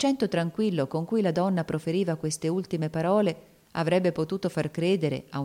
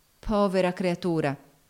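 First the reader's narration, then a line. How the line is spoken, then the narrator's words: Involuntary exclamation. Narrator (Italian): esclamò la signora Baird involontariamente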